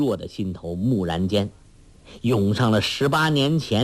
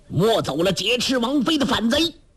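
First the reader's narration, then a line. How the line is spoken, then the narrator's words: Loud shouting. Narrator (Chinese): 当先马军大叫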